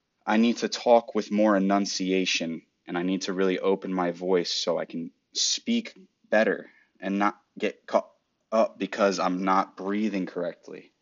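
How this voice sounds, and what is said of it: Flat monotone voice. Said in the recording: “I notice my voice becomes really monotone like this ... and I'm even still doing it”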